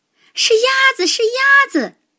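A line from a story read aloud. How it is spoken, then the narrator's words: Shrieking. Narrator (Chinese): 他们一边尖叫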